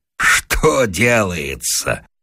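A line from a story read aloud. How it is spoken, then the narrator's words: Laughing loudly. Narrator (Russian): расхохотался Вася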